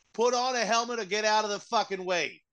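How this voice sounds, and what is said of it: Mixed East Coast American accent. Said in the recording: “I don't even know what accent that one was supposed to be... That was like Boston and Philly and New York combined... you just draw out all of your vowels... and make it vaguely Italian”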